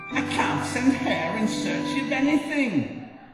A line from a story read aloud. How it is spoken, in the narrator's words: Kangaroo loudly proclaimed